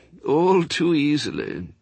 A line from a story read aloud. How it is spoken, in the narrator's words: groaned